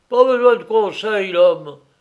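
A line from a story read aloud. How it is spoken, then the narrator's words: Shouted. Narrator (French): cria Kressler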